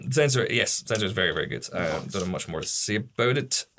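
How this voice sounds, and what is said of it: Strained, deteriorating voice. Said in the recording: “My voice is deteriorating with every minute.”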